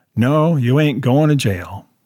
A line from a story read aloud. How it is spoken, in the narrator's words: Harvey sighed